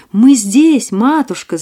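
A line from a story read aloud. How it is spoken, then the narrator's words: Shouting, group. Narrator (Russian): закричали они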